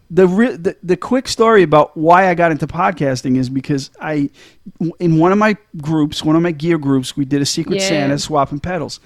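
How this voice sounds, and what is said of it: Boston-sounding American accent. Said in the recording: “everybody freaked out over my accent ... it sounds like a dollar store Bill Burr ... I sound like a Bostonian”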